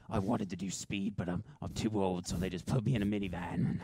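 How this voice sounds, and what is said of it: Imitates another person's voice. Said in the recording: “this is my Liam Neeson impression”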